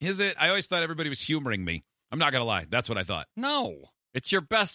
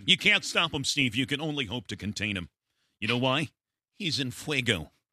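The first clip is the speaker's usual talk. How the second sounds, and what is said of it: Dan Patrick impression. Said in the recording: “How are you not doing Dan Patrick? That's your best one. ... That's a good impression.”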